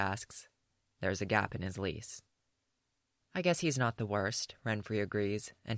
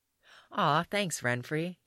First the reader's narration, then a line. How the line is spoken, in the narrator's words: Yaskir says brightly